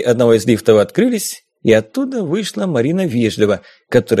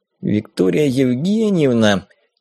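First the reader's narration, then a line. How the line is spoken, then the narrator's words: Flustered mumble. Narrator (Russian): промямлил я, понимая, что сейчас меня переигрывают по всем фронтам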